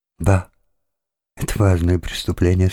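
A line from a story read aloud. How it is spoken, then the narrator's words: Timid and quiet. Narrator (Russian): сказала она робко и тихо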